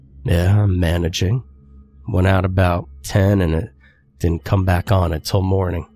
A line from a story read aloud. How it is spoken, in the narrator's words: replied